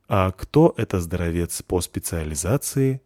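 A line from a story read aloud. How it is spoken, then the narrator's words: Very neutral tone. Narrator (Russian): спросил я чрезвычайно нейтральным тоном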